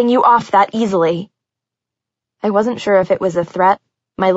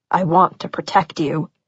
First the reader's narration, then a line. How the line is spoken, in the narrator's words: Patch said quietly